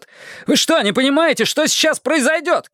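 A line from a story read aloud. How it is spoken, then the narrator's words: Shouting. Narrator (Russian): крикнул я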